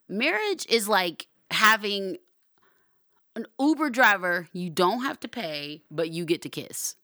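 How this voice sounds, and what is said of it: Loud, yelling delivery. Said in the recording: “I'm sorry I'm yelling. I had caffeine today.”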